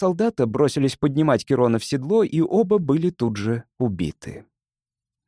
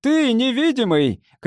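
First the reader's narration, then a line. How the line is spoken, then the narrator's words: Shouting. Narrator (Russian): крикнул Констант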